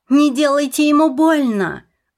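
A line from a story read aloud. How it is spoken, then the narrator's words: Shouting. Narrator (Russian): закричала я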